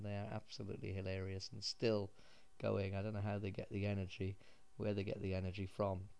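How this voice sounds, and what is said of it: Dull British accent. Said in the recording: “my dull British accent”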